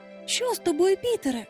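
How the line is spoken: Exclaimed. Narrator (Ukrainian): вигукнула Венді

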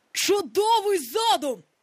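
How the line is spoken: Exclamation. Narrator (Ukrainian): вигукнув Гак

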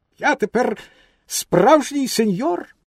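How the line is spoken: Proud exclamation. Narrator (Ukrainian): так йому сподобався власний вигляд, що він гордовито вигукнув

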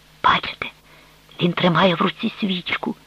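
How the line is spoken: Whispered. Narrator (Ukrainian): прошепотіла Аврелія

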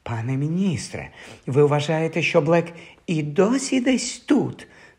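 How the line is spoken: Frightened whisper. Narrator (Ukrainian): настрахано прошепотіла мадам Розмерта

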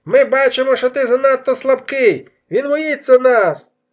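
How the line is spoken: Warrior shouting. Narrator (Ukrainian): крикнув інший воїн

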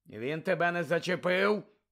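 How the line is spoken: Growled. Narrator (Ukrainian): прогарчав Муді

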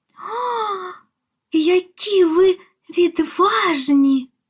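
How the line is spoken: Delighted exclamation. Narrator (Ukrainian): захоплено вигукнула

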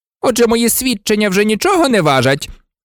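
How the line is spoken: Barked. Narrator (Ukrainian): гаркнув Снейп

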